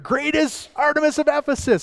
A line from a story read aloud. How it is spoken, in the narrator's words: they're screaming